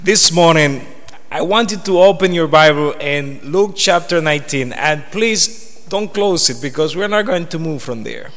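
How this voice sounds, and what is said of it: Foreign accent. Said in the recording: “you're going to be listening to a foreign accent”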